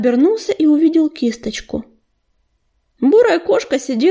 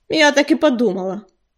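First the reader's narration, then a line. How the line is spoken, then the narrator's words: Snorting. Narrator (Russian): фыркнула Кисточка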